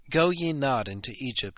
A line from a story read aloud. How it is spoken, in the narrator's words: he pleaded